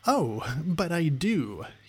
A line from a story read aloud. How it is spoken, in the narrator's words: he exclaimed